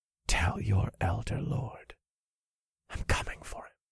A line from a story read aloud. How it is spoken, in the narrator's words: whispered into his ear